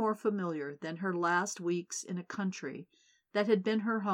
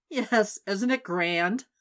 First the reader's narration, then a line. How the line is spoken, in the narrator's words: Paula laughed and said